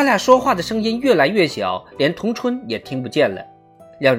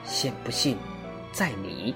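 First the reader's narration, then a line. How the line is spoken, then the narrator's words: Softer. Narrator (Chinese): 张翰回答的声音更轻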